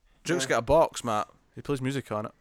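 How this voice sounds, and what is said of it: Mocks another speaker's accent. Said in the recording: “He's mocking my accents. ... That was a singular accent.”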